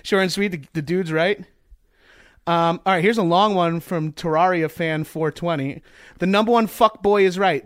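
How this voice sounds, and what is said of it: Long Island accent. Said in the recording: “That stupid Strong Island accent. It's like nails on a chalkboard ... That's the Long Island accent.”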